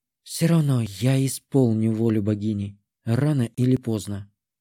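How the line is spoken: Barely audible mutter. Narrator (Russian): еле слышно пробормотала ведьма

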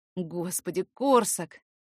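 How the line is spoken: Breathed out. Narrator (Russian): выдохнул

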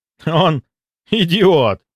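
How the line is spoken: Relieved exhale. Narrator (Russian): облегченно выдохнул Кравцов

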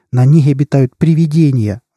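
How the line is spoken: Desperate exclamation. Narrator (Russian): в отчаянии воскликнул Фернграум

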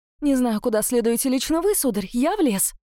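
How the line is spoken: Hurried. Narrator (Russian): Торопливо сообщила я

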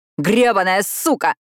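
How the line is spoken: Yelled furiously. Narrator (Russian): заорал он

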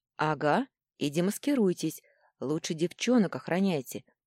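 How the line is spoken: Sighing. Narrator (Russian): вздохнула я

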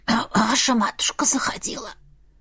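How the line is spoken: Hoarse. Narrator (Russian): хрипло произнесла она

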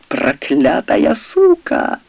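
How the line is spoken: Furious growl. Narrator (Russian): в бешенстве зарычал

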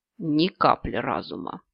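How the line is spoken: Serpent sighing. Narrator (Russian): вздохнул змей

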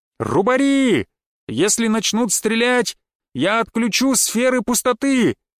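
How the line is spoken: Shouting. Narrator (Russian): крикнул я

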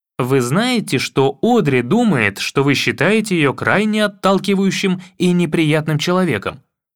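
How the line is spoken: Plain. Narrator (Russian): спросил

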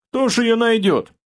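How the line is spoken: Huntsman snorting. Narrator (Russian): хмыкнул егерь

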